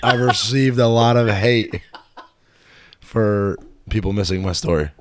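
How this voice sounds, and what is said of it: Raspy voice. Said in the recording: “My voice is a little raspy ... as we can tell from the raspiness”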